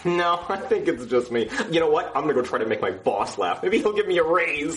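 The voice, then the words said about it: Brooklyn accent. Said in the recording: “something about my accent that's funny. I am from Brooklyn”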